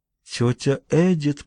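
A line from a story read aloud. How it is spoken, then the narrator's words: Whispering. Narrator (Russian): прошептала София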